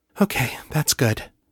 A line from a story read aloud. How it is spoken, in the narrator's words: she said, her voice quavering just a little with the enormity of the sensations